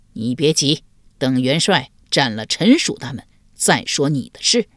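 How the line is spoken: Cold. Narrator (Chinese): 狄青冷声回道

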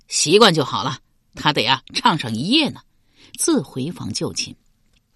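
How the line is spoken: Laughing. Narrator (Chinese): 刘玲笑道

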